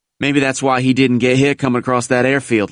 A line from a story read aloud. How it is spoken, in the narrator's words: laughed another